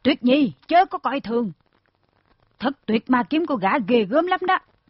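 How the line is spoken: Old woman's cry. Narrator (Vietnamese): Thiết quải bà la lên

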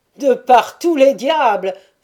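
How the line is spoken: Exclaimed. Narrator (French): s'écria-t-il

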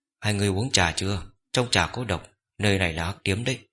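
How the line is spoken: Sudden low nasal murmur. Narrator (Vietnamese): Lâm Bất Khởi bất ngờ hạ giọng nói nhỏ như mũi kêu

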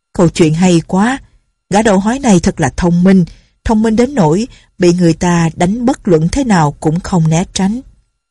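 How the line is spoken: Laughing loudly, praising. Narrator (Vietnamese): Lệnh Hồ Xung cười to lên rồi khen

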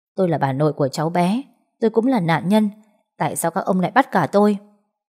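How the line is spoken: Woman shouting loudly. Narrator (Vietnamese): Cô ta quay lại quát lớn

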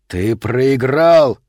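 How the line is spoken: Shout. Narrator (Russian): крикнул он

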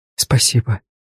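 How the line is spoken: Whispered. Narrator (Russian): прошептала она

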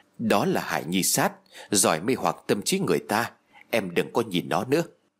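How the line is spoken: Whispering. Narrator (Vietnamese): Đường Dũng thì thầm bên tai của tôi rồi nói

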